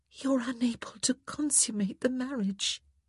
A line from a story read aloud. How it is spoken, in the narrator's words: she whispered